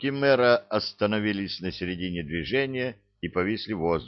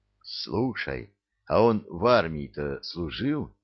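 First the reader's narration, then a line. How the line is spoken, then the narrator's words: Quiet question. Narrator (Russian): Так же тихо поинтересовался у коменданта Мудрецкий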